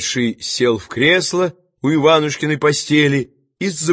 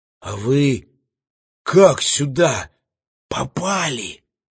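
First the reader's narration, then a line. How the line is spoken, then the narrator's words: Cautious whispered question. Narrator (Russian): спросил шептом Иван, повинуясь острому осторожному пальцу, который ему грозил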